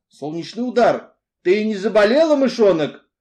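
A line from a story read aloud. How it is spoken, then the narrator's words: Very worried shout. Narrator (Russian): Очень обеспокоенный закричал мистер Ривз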